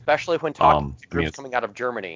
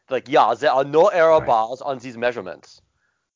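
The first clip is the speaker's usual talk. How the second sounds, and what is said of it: Deliberately bad mock German accent. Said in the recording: “my very bad German accent”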